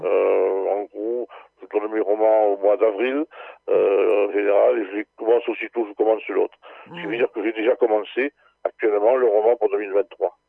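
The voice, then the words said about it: Southern French Ariège accent. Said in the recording (French): “cet accent qui, moi, me rappelle mon Ariège... Ça met un peu de soleil dans le studio”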